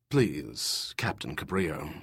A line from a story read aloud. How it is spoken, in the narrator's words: Maurice said in that reserved voice of his